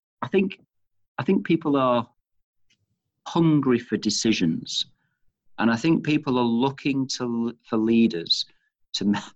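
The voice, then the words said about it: Manchester English accent. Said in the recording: “you can tell from my accent, of course, and I've mentioned I'm from Manchester.”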